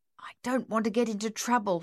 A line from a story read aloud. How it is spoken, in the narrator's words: he mumbled